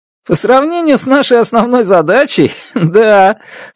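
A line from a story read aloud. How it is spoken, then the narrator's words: Chuckling. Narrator (Russian): хохотнул он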